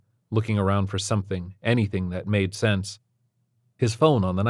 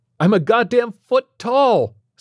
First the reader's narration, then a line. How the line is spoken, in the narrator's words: Stephen yelled into the bottom of the phone